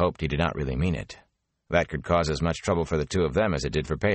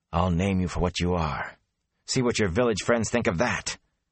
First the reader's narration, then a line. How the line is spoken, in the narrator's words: Matt added fiercely